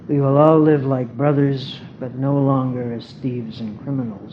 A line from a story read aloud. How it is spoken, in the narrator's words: said Gungu in a very loving tone